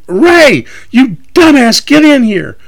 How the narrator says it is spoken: Sarah stops me, screaming

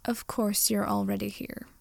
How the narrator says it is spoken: Draco sighed

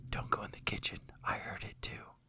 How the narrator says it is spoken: She whispers to her child

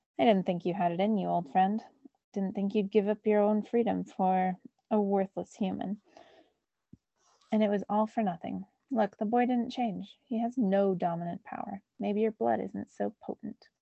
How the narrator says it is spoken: Apuch laughed and said to Hurricane

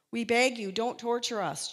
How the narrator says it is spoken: they shouted

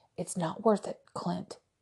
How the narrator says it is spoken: he muttered

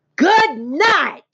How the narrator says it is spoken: screamed Avery

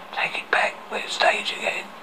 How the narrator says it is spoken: He whispered loudly

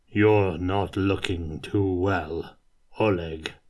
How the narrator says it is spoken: growled Kurt

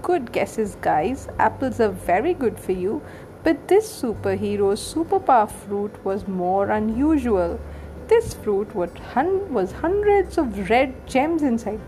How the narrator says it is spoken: Mum chuckled

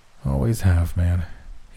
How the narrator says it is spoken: he groaned

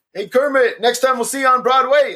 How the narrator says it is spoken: the guy who yells

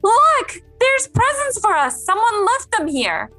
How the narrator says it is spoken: Rashid cried out with excitement

